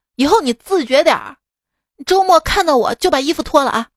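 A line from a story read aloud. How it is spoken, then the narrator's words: Angry roar. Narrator (Chinese): 今天我怒了，对他吼道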